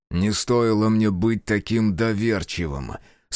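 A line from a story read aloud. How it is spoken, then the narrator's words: Through gritted teeth. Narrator (Russian): сквозь зубы процедил Таквал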